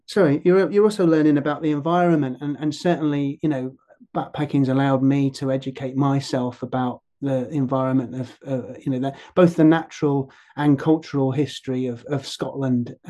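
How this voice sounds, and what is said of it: Non-local accent, not from Scotland. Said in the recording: “you can tell from my accent that I, you know, wasn't born here”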